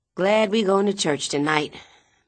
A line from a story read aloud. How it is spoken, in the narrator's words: Minnie sigh